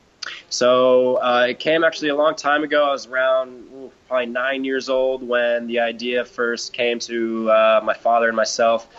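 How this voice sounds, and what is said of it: Strong American accent. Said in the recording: “he's got that strong American accent.”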